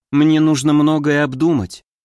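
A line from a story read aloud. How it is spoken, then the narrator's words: Sigh. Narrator (Russian): вздохнула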